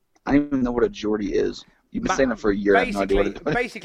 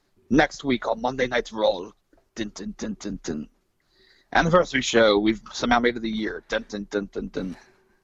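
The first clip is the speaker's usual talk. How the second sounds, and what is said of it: Good put-on British accent. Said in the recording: “That's a great British accent, by the way. I think that's great. ... It's like you're English.”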